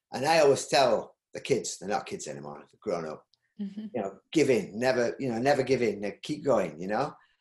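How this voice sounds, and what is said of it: Yorkshire accent. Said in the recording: “my Yorkshire accent”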